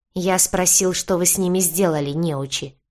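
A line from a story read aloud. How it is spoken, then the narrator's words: Man barking. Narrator (Russian): рявкнул мужчина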